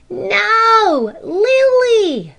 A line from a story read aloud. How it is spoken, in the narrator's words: they all cried with a shout of laughter